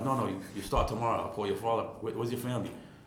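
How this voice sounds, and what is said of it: Put-on Italian accent. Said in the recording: “in his Italian accent”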